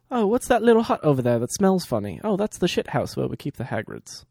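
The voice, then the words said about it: Put-on British accent. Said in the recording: “The British accent”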